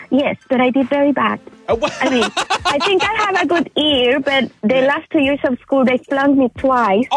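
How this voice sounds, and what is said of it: Chilean Spanish accent. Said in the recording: “I was in Chile, so we speak Spanish there. ... Hence my accent.”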